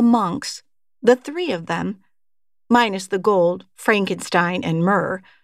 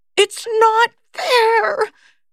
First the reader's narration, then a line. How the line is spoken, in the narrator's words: she screams